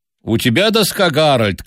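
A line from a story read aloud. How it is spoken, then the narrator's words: Elderly man shouting. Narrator (Russian): крикнул пожилой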